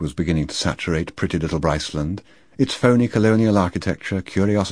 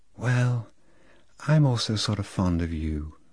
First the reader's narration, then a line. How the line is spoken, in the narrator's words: said Lolita in a delayed, soft voice, with a sort of sigh